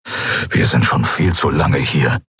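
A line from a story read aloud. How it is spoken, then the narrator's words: Grumbling. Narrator (German): brummte Keru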